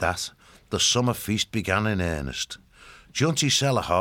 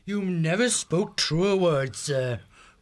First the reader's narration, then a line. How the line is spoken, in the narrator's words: Grandmum Gervel called out